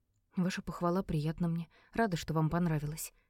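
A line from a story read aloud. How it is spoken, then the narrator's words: Quiet reply. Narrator (Russian): тихо ответила я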